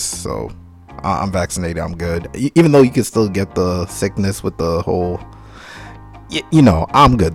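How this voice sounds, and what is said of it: Low, deep, tired voice. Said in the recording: “if my voice sounds pretty low, I have a deep voice ... I'm very tired ... I'm kind of getting sick”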